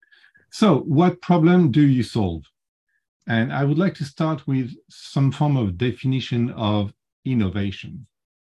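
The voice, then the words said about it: French accent in English. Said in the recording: “I have a bit of an accent. And yes, I'm French and I can't get rid of my French accent.”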